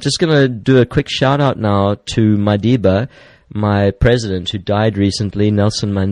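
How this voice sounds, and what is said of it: Usual voice. Nothing is said of it.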